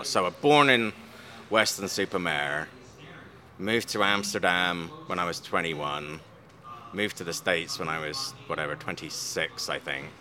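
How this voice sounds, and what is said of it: Mixed English-based accent. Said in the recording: “the highbrow English accent ... It's some kind of mutt accent now ... an amalgam of accents that I've picked up”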